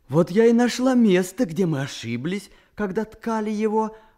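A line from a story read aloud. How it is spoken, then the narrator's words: Joyful exclamation. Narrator (Russian): радостно воскликнула Салтангуль Эдже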